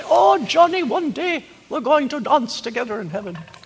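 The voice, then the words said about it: Imitated thick Dutch accent. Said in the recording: “she had that thick Dutch accent.”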